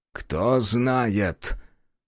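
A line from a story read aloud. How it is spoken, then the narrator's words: Thoughtful snort. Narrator (Russian): глубокомысленно хмыкнул тот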